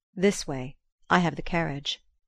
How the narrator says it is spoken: he said

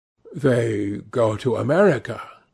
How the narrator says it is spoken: murmured Lord Henry

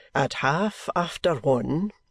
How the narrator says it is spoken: says Mr

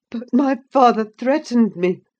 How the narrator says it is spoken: gasped the boy

